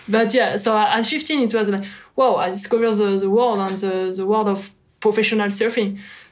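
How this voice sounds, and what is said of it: Strong French accent. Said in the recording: “my accent is strong”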